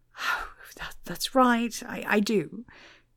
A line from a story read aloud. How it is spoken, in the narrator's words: he answered nervously